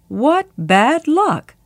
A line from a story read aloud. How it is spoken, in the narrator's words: Birbal exclaimed